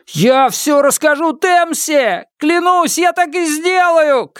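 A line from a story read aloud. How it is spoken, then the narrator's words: Shouted. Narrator (Russian): крикнул я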